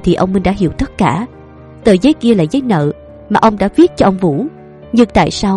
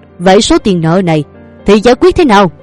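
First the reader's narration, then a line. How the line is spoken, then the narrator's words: Hissing. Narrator (Vietnamese): miệng rít lên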